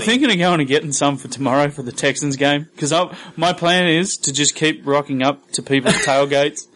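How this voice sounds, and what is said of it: Australian accent. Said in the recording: “the powers of my Australian accent ... All from the powers of an Australian accent.”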